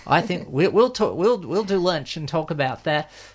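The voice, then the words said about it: Put-on American accent. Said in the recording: “There was my bit of American accent.”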